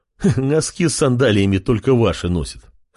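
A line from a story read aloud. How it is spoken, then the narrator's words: Short laugh. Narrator (Russian): хохотнул тот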